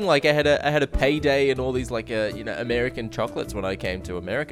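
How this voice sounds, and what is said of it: Australian accent. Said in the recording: “this glorious accent that you have. It sounds amazing to us over here in the States ... every other guy sounds just like you”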